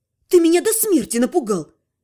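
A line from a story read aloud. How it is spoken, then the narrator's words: Barked. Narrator (Russian): рявкнула я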